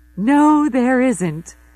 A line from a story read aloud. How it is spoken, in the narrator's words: Zoe says, laughing